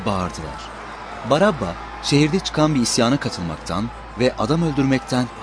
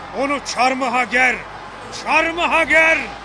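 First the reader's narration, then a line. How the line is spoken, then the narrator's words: Crowd shouting together. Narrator (Turkish): diye bağırıştılar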